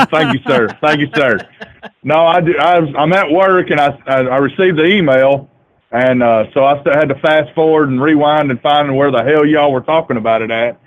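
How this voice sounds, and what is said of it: North Alabama Southern US accent. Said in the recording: “I'm the guy from North Alabama ... I love right. your fucking accent too. You sound like a real man.”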